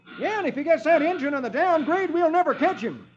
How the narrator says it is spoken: One of the posse exclaims

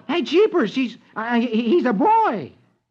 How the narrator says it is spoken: Rusty, who exclaims

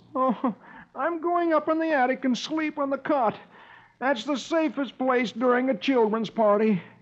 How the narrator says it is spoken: he groans

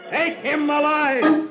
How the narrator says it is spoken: he shouts

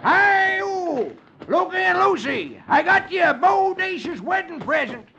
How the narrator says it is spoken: he shouts

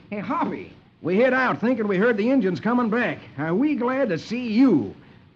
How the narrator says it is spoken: Lucky exclaims

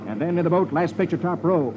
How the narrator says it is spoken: Etch exclaims

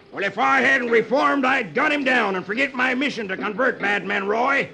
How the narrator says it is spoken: Brimstone shouts

